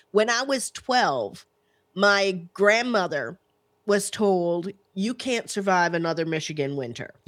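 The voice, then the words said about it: Slight Southern American accent. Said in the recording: “you kind of have a Southern accent”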